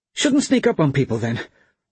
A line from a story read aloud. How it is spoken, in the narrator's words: Bryn snapped